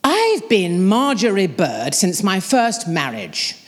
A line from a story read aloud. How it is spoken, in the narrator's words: my mother said in her booming voice